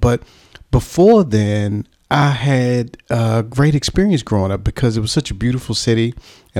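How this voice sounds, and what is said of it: American Washington D.C. accent. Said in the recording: “that's not a South London accent ... My accent is from Washington, D.C.”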